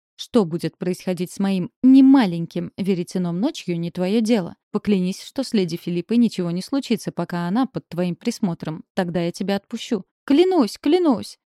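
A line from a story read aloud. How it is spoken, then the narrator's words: Shout. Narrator (Russian): закричал фей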